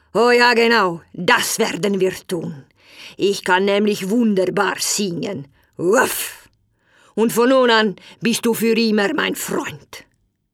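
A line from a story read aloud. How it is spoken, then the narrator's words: Dog barking joyfully, calling. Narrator (German): Der Hund bellte vor Freude und rief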